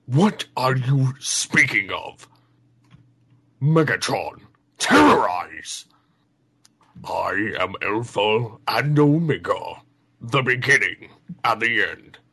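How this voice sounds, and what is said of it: Impression of Beast Wars Megatron. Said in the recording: “his impression of the Beast Wars Megatron ... that's probably the best impression”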